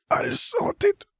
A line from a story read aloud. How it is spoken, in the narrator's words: Vera rasped